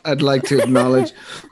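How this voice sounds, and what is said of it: Hoarse, unusually deep voice. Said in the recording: “I'm losing my voice. ... You are. ... I normally don't sound this radio voicey with my baritone. ... I'm usually squeaky and loud and high pitched.”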